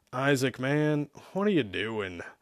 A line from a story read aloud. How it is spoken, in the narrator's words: Zack asked with a sigh